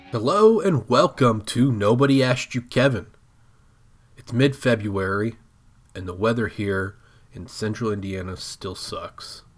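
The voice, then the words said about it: Sick, under-the-weather voice. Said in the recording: “If you can't tell from my voice, I've been under the weather a little bit. I've been a little ill”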